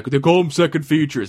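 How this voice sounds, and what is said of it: Imitates another person's voice. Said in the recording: “That was a horrible impersonation of him.”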